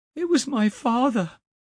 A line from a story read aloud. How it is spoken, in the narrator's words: he cried, as he recovered his consciousness